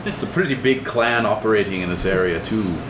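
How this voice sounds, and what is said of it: Character voice with an accent. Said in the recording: “The accent, it's here. ... He's got the accent.”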